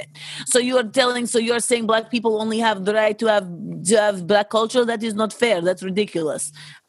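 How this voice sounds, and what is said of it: Put-on Russian accent. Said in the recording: “let me get the Russian accents.”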